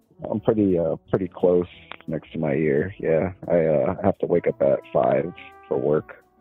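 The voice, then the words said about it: Tired, distant-sounding voice. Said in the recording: “you sound really tired. You also sound like you're very far away from the phone.”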